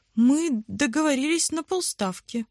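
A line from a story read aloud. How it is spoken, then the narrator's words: Happy mother. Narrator (Russian): радостно сообщила мама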